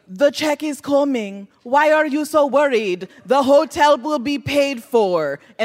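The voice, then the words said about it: Deliberately bad put-on accent. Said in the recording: “She puts on the worst accent you've ever heard.”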